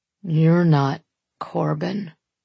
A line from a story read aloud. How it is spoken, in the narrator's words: he mutters